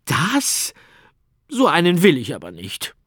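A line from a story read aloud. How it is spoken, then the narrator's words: Laughing. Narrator (German): Arthur lachte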